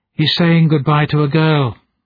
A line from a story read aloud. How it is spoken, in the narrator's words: sighed the drone